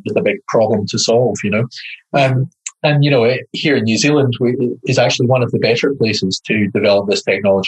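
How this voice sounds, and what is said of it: Scottish accent. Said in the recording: “obviously I'm Scottish, you can tell from the accent,”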